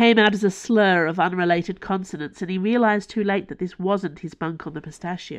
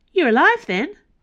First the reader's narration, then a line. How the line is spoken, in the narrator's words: It was a chirpy voice